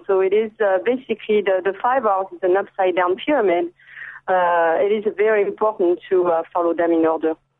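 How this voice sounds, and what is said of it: French accent. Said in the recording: “trying to place that accent, that is French ... Can't hide it.”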